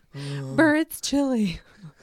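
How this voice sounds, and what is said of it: Imitates another person's voice. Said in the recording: “That's a terrible Biden impression.”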